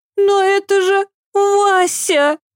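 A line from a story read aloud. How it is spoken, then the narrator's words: Sobbing. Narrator (Russian): всхлипнула Ева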